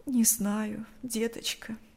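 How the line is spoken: Heavy sigh, woman. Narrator (Russian): тяжело вздохнула женщина

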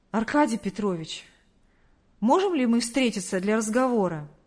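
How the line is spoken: Breathless exhale. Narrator (Russian): выдохнул Артур

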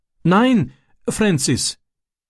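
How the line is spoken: Pleading. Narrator (German): flehte er und breitete bittend seine Hände aus

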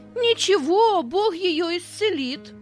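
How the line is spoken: Half-joking shout. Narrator (Russian): То ли серьезно, то ли шутя, выкрикнул Петя

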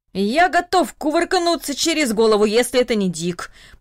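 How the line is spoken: Old man muttering under breath. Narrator (Russian): пробурчал дедушка Даниил себе под нос

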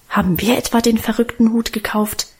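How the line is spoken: Defiant mutter. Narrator (German): murmelte er trotzig

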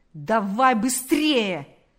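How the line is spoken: Shouting. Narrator (Russian): закричал полицейский

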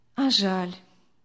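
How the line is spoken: Sad, smiling. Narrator (Russian): печально улыбнулась Виктория

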